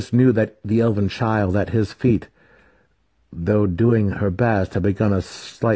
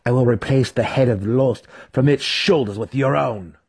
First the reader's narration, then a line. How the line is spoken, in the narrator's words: he spat, sincerity dripping from his false words